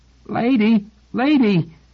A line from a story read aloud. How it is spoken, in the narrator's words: shouting in a squeak